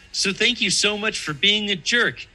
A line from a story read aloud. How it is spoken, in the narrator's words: he said cheerfully